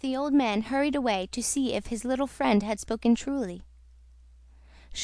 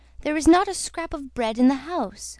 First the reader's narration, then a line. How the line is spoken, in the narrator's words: quavered the old man